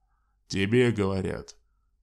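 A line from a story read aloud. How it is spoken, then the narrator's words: Barking tall man. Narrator (Russian): гаркнул высокий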